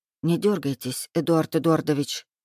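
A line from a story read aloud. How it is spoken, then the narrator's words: Smiling whisper. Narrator (Russian): прошептала девушка, широко улыбаясь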